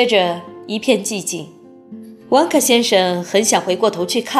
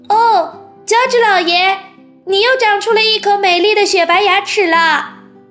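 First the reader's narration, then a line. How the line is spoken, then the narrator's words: Calling out. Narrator (Chinese): 查理叫道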